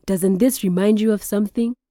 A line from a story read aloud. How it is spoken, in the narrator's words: Shama chuckled